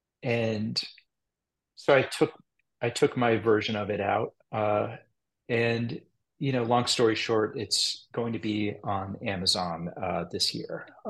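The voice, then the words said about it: Strained, fading voice. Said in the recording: “Sorry, I'm losing my voice after all these hours doing this.”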